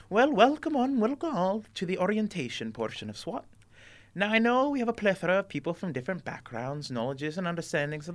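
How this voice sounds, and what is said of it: Put-on accent for a character. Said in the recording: “This accent is hard, guys.”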